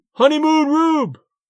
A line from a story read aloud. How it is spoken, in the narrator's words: A wag of a fan yelled from the bleachers